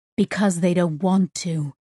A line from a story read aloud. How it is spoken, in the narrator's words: Sissix said, her voice growing fierce